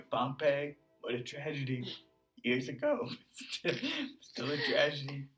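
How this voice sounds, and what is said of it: Donald Trump impression. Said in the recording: “The key with a Trump impression is just to freaking just Calma. Go off.”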